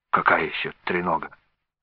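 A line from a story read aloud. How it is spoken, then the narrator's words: Puzzled exclamation. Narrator (Russian): озадаченно воскликнул Александр Сергеевич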